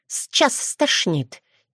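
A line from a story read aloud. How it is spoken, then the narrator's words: Quiet hiss. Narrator (Russian): тихо прошипела рядом Ярна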